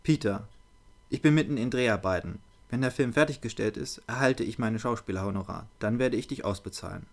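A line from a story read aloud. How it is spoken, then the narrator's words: Surprisingly calm. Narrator (German): antwortete erstaunlich ruhig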